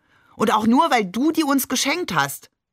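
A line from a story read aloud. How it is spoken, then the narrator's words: Called out. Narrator (German): rief Shakir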